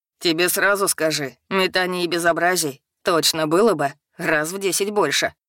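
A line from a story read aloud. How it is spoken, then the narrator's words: Troll's snort. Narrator (Russian): хмыкнул тролль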